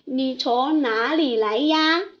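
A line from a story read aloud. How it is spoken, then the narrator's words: Plain. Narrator (Chinese): 小海龟说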